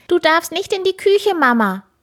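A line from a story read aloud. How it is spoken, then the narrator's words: Called out. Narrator (German): ruft Paul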